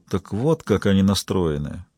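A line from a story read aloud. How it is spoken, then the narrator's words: Quiet speech. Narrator (Russian): Тихо произнес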